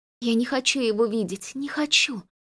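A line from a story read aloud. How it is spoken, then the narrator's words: Delirious whisper. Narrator (Russian): прошептала Элайн, как в бреду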